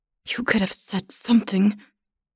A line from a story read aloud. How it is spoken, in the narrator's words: she says through gritted teeth